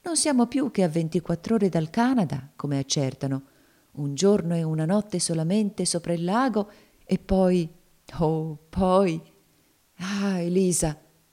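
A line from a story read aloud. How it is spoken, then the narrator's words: Exclaimed. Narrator (Italian): esclamò Giorgio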